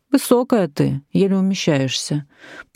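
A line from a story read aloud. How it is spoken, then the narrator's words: Resonant teacher's voice, joking. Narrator (Russian): произносит звучный учительский голос шутливым тоном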